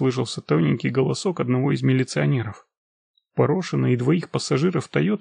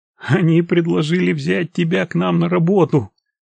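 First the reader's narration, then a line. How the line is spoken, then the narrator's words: Laughing while telling. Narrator (Russian): смеясь рассказывал Порошин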